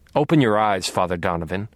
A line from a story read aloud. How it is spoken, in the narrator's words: I said